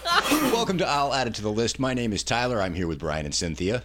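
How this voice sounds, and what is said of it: Deep radio-style voice. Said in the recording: “got radio voice because he ate a cough drop earlier”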